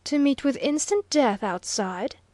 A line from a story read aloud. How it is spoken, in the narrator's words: sharply queried Bruno